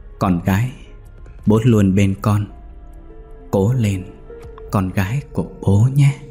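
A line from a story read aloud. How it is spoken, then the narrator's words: Father speaking gently. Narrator (Vietnamese): bố cô nói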